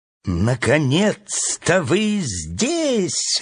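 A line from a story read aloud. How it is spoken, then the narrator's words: Joyful bird exclaiming. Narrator (Russian): радостно воскликнула птица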